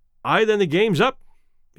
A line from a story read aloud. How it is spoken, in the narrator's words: he said